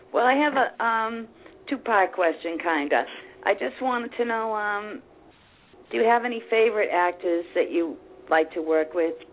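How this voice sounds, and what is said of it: Boston accent. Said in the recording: “I hear that accent. ... Oh, Boston.”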